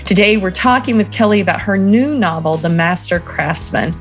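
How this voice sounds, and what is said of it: Southern American accent. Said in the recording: “I probably butchered that, my southern accent”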